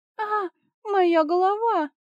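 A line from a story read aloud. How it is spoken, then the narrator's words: Pained moan. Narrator (Russian): простонала Агнеда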